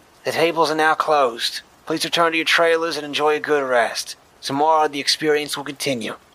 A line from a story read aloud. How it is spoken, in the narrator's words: Hidden speakers crackled to life, and a feminine voice with a Boston accent said